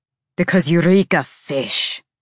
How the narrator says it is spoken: Cormac spat

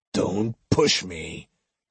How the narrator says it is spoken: he warned menacingly

